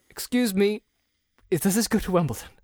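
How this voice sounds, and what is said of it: Put-on British accent. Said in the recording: “Like with a British accent? ... Yes.”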